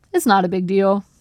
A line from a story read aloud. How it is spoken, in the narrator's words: he said